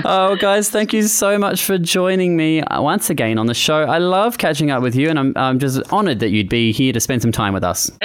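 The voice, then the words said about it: Australian accent. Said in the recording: “It's really great to hear like an Aussie accent as well.”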